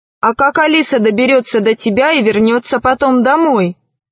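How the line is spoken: Plain. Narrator (Russian): спросил Селезнев

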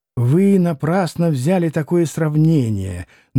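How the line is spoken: Very soft. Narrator (Russian): начал было чрезвычайно мягко Николай Парфенович

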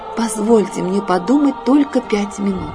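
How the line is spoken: Plain, frog speaking. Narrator (Russian): сказала лягушка

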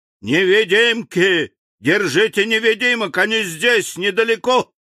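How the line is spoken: Alarmed shout at full voice. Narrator (Russian): Минвит, услышав топот, закричал изо всей мочи

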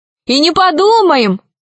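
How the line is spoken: Joyful shout. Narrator (Russian): радостно закричала Алиса

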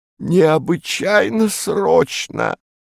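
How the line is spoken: Breathless wheeze. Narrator (Russian): просипел он, задыхаясь

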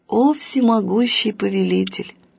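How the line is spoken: Plain old man's reply. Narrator (Russian): ответил старик

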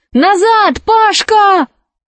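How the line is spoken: Shout. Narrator (Russian): крикнула Алиса

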